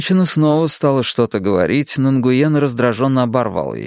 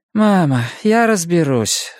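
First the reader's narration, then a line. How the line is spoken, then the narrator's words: Sigh. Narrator (Russian): вздохнул Нгуен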